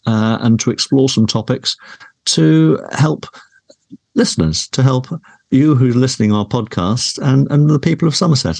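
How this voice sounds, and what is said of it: Polished radio presenter voice. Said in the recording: “you have a radio voice, and that's a, a, a compliment ... from your days and your media training”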